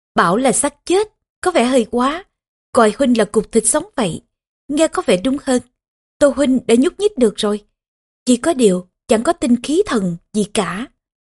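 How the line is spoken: Laughing. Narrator (Vietnamese): Trương Nghi bật cười mà nói

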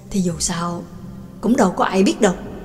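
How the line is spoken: Low whisper. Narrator (Vietnamese): Trương Lập hạ giọng thì thầm

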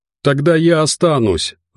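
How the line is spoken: Shouted. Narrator (Russian): выкрикнул Матвей

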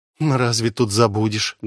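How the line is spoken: Sorrowful sigh. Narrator (Russian): горестно вздохнула Ола

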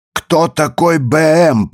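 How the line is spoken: Growling. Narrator (Russian): прорычал он

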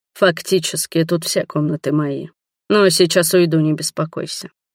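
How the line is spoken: Tired. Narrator (Russian): устало проговорил он

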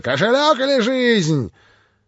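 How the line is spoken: Frenzied shout. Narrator (Russian): неистовым голосом прокричала

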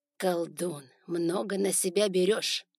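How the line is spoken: Grumbling. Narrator (Russian): пробурчал Вар

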